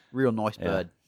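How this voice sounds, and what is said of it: Bad put-on British accent. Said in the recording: “if you were in the UK ... That was a bad accent.”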